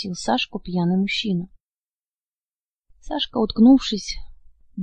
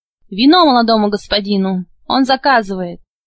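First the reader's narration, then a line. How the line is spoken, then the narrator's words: Shouted. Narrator (Russian): крикнул слуге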